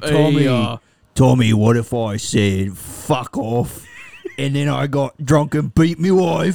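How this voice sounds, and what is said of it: Put-on rough Cockney-style accent. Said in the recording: “You're so good at that, dude. ... accents like you are, dude. That was really good. ... the trashiest foreign accent you can do ... It's just so cogny and gross”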